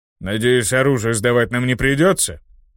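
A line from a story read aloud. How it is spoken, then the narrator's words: Displeased grumble. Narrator (Russian): Пробурчал недовольный орк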